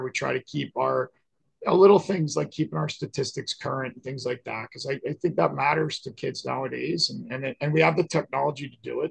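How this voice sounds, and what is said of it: Slightly hoarse voice. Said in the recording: “your voice is a little hoarse,”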